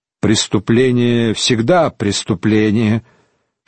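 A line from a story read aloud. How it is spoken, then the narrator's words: Sighing. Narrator (Russian): Шарлей вздохнул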